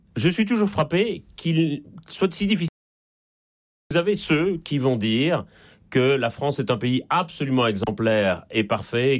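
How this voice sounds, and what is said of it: Slight Belgian French accent. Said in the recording (French): “ça s'entend un peu d'ailleurs à mon accent, je suis en Belgique et je ne suis pas né en France”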